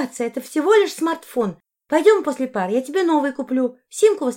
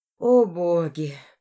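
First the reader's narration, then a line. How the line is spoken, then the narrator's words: Moaned. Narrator (Russian): простонала я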